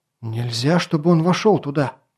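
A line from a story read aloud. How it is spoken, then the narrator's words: Breathless exhale. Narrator (Russian): выдохнул Ли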